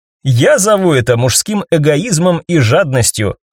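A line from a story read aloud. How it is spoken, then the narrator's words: Joyful telling. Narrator (Russian): радостно поведала Ева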